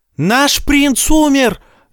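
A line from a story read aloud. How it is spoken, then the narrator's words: Woman shrieking from behind. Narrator (Russian): завизжала позади какая-то женщина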